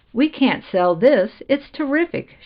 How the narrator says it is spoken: she cried

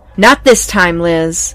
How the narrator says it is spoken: I shouted, perhaps a bit overly agitated

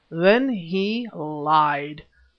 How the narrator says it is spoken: thundered Brother John

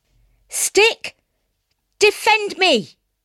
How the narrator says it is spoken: cried the boy

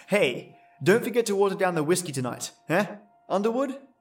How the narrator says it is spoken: Brant chuckled, with an exaggerated laugh

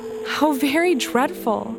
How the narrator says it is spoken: exclaimed Dorothy

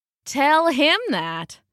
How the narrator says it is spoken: the big wolf said with a sneer

